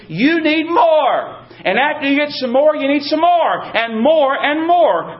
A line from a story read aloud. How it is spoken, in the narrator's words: They shout at us